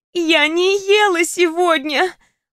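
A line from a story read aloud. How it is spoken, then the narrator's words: Moaned reply. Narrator (Russian): простонала она в ответ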